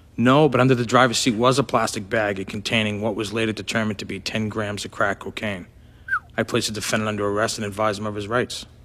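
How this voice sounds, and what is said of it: Boston accent. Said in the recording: “Actually, that's a pretty good Boston accent.”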